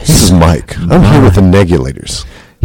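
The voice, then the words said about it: Radio announcer voice. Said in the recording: “We're all using our radio voices at the same time... Who has the best radio voice?”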